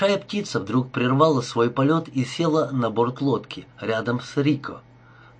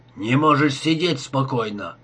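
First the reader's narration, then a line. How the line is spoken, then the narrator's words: Grumbling. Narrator (Russian): ворчал он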